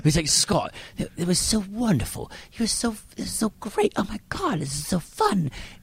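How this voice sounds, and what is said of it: Put-on London accent, poorly done. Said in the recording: “This is my horrible London impression.”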